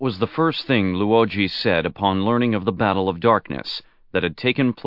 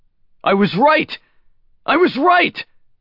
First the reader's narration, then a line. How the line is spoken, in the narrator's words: he shouted at the sky